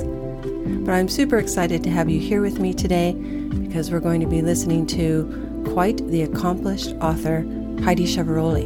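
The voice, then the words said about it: Congested, slightly off-sounding voice. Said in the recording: “My voice might sound a little funny today, but it's because I'm getting over a head cold”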